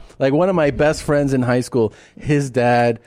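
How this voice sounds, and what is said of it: Usual voice. Nothing is said of it.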